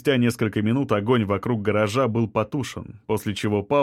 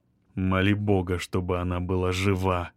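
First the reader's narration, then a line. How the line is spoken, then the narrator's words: Grim remark. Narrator (Russian): мрачно заметил Шамиль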